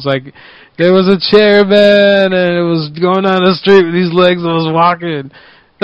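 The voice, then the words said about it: Imitates another person's voice. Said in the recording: “I was doing the Eddie Garcia voice thing.”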